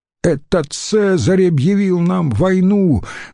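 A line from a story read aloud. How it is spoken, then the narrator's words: Loud shout. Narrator (Russian): громко крикнул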